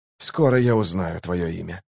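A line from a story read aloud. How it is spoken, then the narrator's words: Whisper. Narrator (Russian): прошептал Барук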